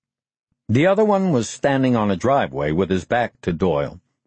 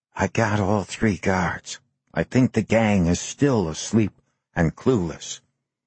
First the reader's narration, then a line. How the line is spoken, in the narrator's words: whispered